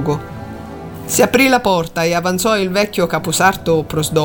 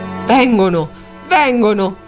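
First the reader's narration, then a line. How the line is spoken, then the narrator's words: Hushed, secretive exclamation. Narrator (Italian): esclamò in sordina, come fosse un grande segreto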